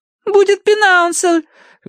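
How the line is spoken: Shrill squeal. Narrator (Russian): взвизгнула Агнес

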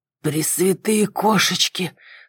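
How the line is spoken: Hoarse gasp. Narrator (Russian): хрипло выдохнул Кэрри

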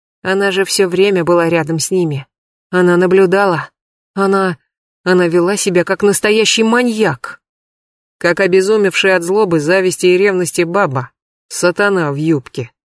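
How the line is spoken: Grumbling officer. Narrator (Russian): буркнул подполковник Поливанов

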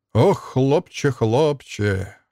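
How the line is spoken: Sighing with fatherly pity. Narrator (Russian): вздохнул Марко, глядя на Алексу с отеческой жалостью

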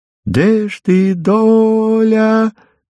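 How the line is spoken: Drawn-out sad reedy tenor singing. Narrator (Russian): Запевал Ромка протяжно и грустно, немножко петушиным своим тенорком

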